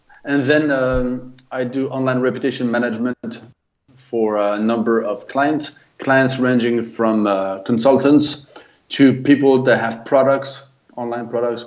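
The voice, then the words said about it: French accent in English. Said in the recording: “I'm French, lived in the US for 20 years, and now back in France. So that's a little bit for who I am, I guess, or at least justify my accent.”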